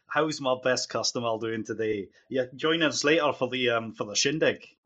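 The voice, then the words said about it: Put-on character accent. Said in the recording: “Yes, the accent. ... it's really difficult to keep an accent when someone else is doing another accent”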